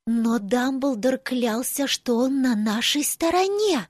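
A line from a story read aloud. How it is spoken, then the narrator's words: Whisper. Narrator (Russian): прошептала Тонкс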